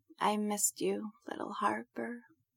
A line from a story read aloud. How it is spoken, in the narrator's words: Prudence murmurs, half asleep